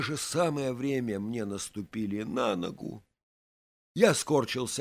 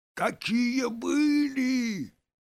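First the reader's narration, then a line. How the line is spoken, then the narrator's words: Yelling. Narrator (Russian): заорал он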